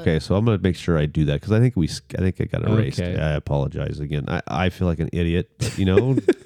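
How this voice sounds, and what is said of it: Rich radio-announcer voice. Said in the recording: “I still love your voice. You have a great radio voice.”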